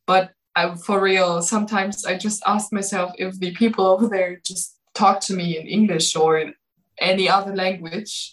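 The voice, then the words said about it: Slight German accent. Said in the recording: “For me as a German... I have a German accent a little bit”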